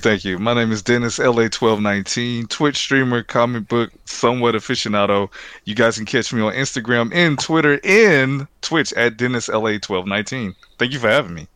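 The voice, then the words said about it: Deep smooth radio-style voice. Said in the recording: “the radio voice. You brought the radio voice.”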